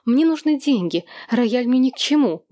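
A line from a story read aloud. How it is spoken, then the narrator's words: Agitated rapid chatter. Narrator (Russian): взволнованно затараторила мисс Уилсон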